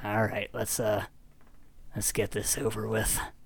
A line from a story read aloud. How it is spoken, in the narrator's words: Ranger Tom sighs